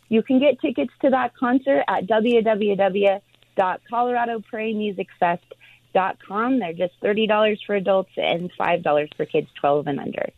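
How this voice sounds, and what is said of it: Excited, enthusiastic delivery. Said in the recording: “you sound excited.”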